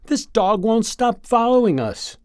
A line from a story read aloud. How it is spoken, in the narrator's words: shouts Rabbit in delighted frustration